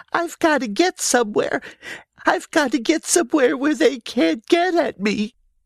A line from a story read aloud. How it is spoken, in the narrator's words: he sobbed